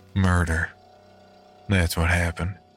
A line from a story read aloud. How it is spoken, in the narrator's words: muttered